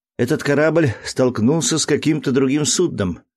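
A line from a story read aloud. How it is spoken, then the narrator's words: Exclaiming. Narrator (Russian): воскликнул Дик Сэнд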